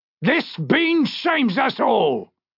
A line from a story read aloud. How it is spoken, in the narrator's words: he shouted